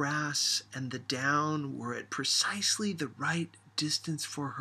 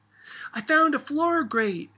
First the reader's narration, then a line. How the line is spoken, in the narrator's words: she hollered